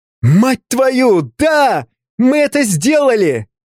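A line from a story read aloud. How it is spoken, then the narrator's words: Shouting. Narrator (Russian): закричал Артемий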